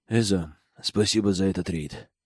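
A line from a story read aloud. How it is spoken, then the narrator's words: Quiet but audible. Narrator (Russian): произнес Рич тихо, но так, чтобы все слышали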